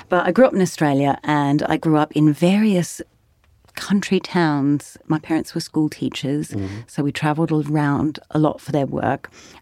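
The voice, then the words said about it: Mixed Australian, American and British accent. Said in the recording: “my accent is now really confused because I lived in Tennessee for 10 years and I married a British person and I'm a singer, so I just mimic whatever is going on around me”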